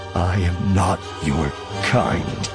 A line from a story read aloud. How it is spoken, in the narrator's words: Voss said, his voice thick